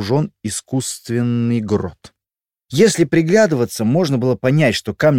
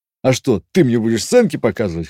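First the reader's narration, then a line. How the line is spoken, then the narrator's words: Chuckling. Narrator (Russian): хохотнул Олег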